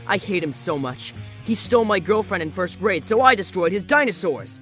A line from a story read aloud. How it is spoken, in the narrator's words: he shouted in victory